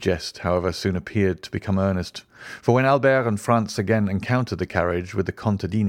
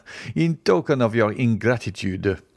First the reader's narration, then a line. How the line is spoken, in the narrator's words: returned Franz, laughing